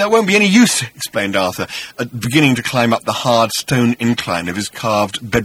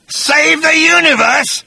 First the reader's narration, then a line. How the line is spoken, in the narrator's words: spat Agrajack with contempt